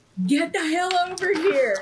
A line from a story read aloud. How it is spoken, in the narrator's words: Cole's gonna yell out to Ariel